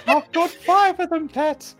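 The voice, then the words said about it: Imitates another person's voice. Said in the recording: “Everyone's doing an impression of you now. ... And we're nailing it. ... It's not even close. ... Oh, it's spot on, dear.”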